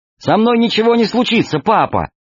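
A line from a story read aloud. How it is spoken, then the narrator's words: Cheerful. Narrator (Russian): весело сказала Алиса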